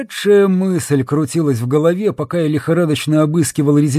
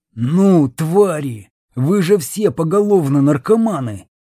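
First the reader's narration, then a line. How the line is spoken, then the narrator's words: Growling. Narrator (Russian): рычал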